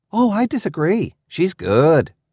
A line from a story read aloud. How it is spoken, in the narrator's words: Triss exclaimed